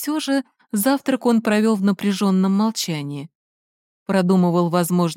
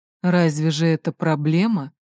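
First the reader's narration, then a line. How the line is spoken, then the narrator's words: Quiet grumble. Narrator (Russian): проворчал он негромко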